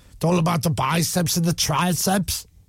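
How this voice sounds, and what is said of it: Austrian-accented impression of another person. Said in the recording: “Was that an impression of Owen? ... Yeah, that's how he spoke. He's from Austria.”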